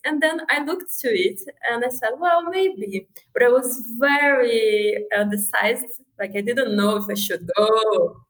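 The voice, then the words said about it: Foreign accent in English. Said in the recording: “Sorry, it's my accent.”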